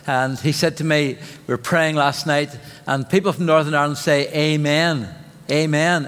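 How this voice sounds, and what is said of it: Northern Irish accent. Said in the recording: “get used to my accent ... because if you say amen in Cambridge, people will know that you're Irish”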